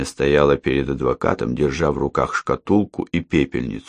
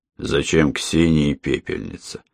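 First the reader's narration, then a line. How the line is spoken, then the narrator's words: Irritated question. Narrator (Russian): раздраженно спросил Андрей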